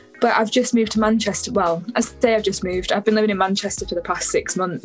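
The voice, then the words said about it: Slight northern English accent. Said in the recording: “I can kind of pick up a little bit of like a northern accent at the moment.”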